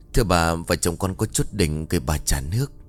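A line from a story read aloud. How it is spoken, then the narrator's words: Whisper. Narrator (Vietnamese): Tú thì thầm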